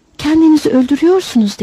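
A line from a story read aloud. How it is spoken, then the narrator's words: Excited voice. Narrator (Turkish): Heyecanlı bir sesle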